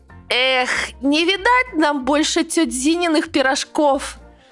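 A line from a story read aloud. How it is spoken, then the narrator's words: Groaning. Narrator (Russian): простонал Миха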